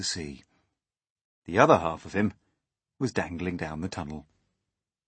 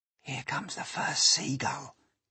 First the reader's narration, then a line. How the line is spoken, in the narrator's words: whispered James